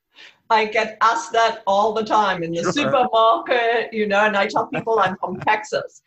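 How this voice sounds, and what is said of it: Slight foreign accent. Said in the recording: “a little bit of an accent ... it's not a New Jersey accent”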